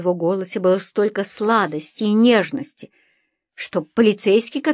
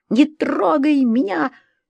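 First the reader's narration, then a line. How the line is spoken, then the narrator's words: Shrieking protest. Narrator (Russian): взвизгнула я, когда муж попытался обнять меня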